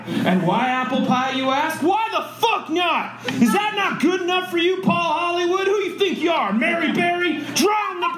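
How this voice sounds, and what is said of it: Yelling, angry rant. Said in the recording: “Sorry for yelling.”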